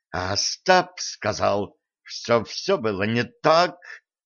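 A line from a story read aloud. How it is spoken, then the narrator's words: Hissing. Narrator (Russian): прошипела Стесси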